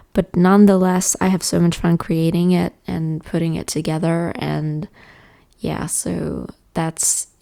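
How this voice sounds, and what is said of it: Tired-sounding voice. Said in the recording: “I sound tired, which I am.”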